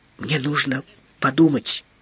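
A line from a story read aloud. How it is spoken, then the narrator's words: Orphan's whisper. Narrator (Russian): прошептал сирота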